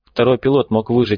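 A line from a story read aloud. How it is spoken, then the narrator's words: Plain. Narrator (Russian): сказал Борланд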